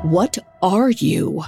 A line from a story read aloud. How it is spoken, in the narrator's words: His voice shook as he asked